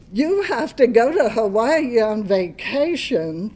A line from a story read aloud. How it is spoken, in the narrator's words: exclaimed in unison